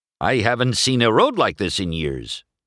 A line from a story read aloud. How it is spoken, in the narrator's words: Ramon replied